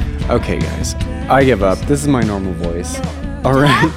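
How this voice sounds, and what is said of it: Usual voice. Nothing is said of it.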